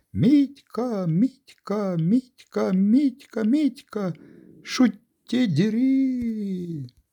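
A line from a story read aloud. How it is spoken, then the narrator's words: Shout ending in squeal. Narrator (Russian): Крик закончился взвизгом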